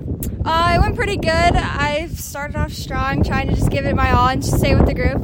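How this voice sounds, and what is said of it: Out of breath. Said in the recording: “every time I talk to you, you're out of breath”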